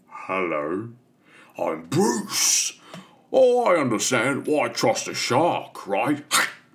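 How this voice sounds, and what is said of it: Impression of Bruce the shark. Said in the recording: “Barry Humphries doing the voice of Bruce”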